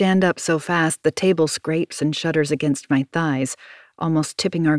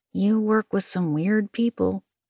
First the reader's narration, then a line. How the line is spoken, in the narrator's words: Maddie says under his breath